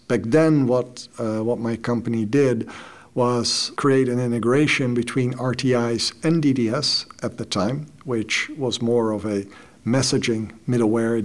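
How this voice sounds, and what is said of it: Dutch-accented English. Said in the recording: “I actually started my own company in the Netherlands. That's where I'm from. That explains the accent.”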